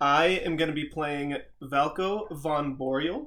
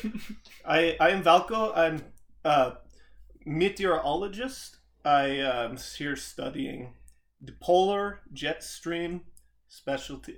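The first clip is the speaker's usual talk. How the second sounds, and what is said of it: Put-on Dutch accent. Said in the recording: “He's Dutch. I've never done a Dutch accent, but I have some notes”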